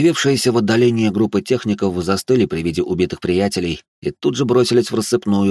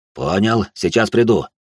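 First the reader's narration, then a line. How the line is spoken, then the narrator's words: Stern order, synthetic. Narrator (Russian): синтетик строго приказал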